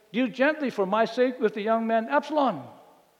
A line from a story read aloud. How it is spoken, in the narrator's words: David shouted again